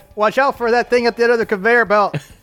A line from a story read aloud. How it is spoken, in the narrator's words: Amidst the screaming, Niklaus yells out